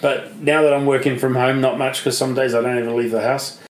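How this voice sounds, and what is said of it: Australian accent. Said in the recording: “With your accent? ... And you say Australia.”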